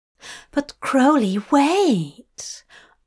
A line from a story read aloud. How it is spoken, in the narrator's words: Aziraphale gasped